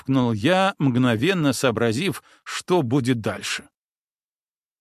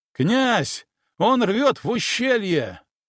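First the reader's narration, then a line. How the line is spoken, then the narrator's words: Exclaimed. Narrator (Russian): воскликнул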